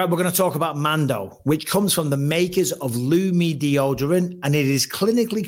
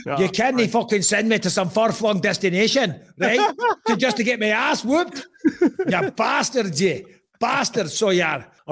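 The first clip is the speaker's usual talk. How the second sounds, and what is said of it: Scottish accent impression of Paul Craig. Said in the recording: “Say far-flung destination in a Scottish accent in homage of Paul Craig.”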